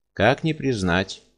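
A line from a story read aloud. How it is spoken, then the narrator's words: Answered calmly. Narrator (Russian): ответил бесприютный спокойно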